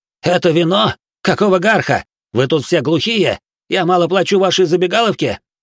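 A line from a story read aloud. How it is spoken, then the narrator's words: Loud yell. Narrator (Russian): Самум ... заорал так, чтобы там точно услышали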